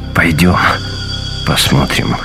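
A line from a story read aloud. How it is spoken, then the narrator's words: Forced out reluctantly. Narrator (Russian): выдавил из себя Шефер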